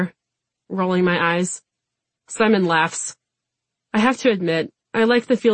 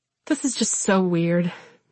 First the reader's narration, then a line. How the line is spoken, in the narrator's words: Simon sighs